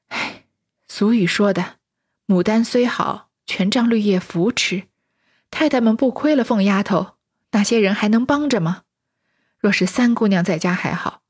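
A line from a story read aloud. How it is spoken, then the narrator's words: Sighing to herself. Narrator (Chinese): 李纨……自叹道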